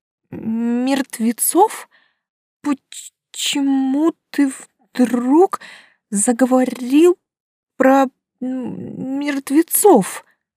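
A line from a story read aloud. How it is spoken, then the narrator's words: Stammering question. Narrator (Russian): заикаясь, спросила я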